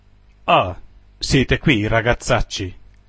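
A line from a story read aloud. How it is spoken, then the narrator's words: Exclamation. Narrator (Italian): esclamò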